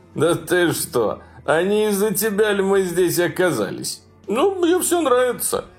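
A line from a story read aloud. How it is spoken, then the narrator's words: Laughing reply. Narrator (Russian): смеясь, ответил он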